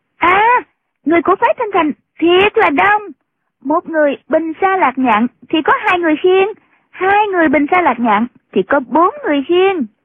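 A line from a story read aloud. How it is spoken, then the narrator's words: Girl's sudden cry. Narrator (Vietnamese): Tiểu cô nương bỗng nhiên la lên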